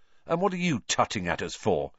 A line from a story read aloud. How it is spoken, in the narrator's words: said Ron irritably